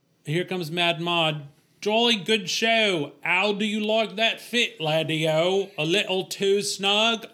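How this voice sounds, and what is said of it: Awful put-on British accent. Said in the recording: “I so love you doing this accent. ... awful. ... I love it when you try new accents.”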